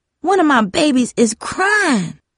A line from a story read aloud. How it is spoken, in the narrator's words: Grandma wailed